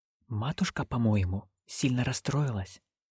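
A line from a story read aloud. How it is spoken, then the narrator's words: Whisper. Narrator (Russian): шепнула она нянюшке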